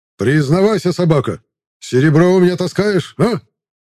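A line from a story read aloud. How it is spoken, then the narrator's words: Blunt yelling. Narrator (Russian): Прямолинейно заорал Одион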